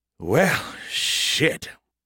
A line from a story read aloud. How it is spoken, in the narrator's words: Skippy sighed wearily